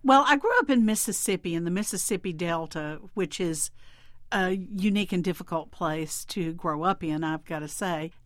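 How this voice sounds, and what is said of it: Southern US drawl. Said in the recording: “From your drawl, it's clear that you're a Southerner.”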